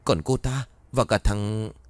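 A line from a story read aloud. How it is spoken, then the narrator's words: Frightened. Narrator (Vietnamese): Các đàn em sau khi lấy lại bình tĩnh sợ hãi nói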